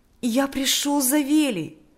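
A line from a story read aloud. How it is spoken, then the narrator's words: Joyful voice. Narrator (Russian): сказал Миша радостным голосом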